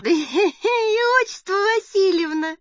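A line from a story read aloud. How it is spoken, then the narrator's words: Laughing. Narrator (Russian): сквозь смех сообщила Татьяна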